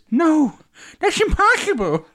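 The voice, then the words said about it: Luke impression sounding like Ralph Wiggum. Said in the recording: “I thought that was an impression of Ralph Wiggum.”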